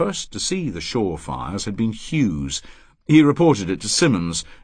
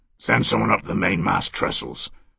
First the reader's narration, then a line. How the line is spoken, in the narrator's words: he said in his hoarse and penetrating voice